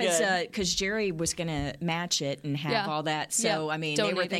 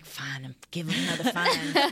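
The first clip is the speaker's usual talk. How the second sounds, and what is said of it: Imitates another person's voice. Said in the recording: “great Jerry Jones impression.”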